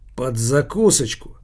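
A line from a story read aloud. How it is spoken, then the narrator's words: Thoughtful mutter. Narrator (Russian): задумчиво пробормотал Килькин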